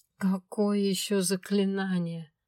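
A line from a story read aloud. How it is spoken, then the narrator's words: Moan. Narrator (Russian): простонала я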